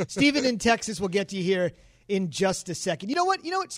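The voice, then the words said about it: Weak, worn-out voice. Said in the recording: “my voice is dead”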